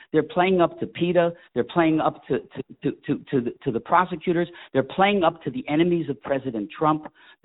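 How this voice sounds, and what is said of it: Passionate, heated speech. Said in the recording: “you hear the passion in my voice”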